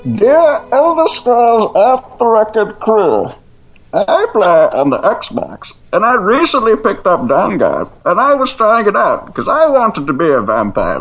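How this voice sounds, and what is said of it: Bane character voice. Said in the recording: “I shall do Bane for you”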